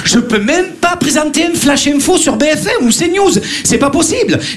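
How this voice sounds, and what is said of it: Marseille French accent. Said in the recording (French): “on entend mon accent ... Marseillais”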